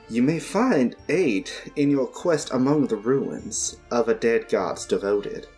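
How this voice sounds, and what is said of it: Put-on accent. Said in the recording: “I just suddenly topped this accent.”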